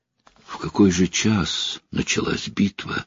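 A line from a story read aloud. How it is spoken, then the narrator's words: Mournful question. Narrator (Russian): скорбным голосом спросила Эдит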